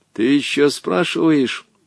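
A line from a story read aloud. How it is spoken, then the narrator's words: Stern, then much softer. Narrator (Russian): Грозно ответил ему Волька, но продолжал уже значительно мягче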